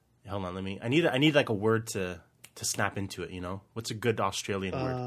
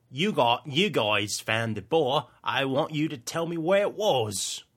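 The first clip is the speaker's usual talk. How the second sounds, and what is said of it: Attempted Australian accent, sounds cockney. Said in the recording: “Can I hear that again in Australian though? ... accent. ... I didn't realize that was very cockney of you.”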